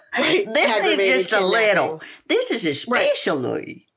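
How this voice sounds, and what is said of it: Put-on Tennessee accent. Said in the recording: “Sorry, that was my Tennessee accent. ... And it was brilliant.”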